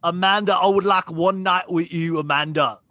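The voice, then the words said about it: Put-on Cockney accent. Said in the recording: “He has a Cockney accent”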